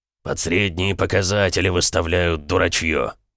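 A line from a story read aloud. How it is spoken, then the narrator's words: Grumbled. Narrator (Russian): буркнул Эмик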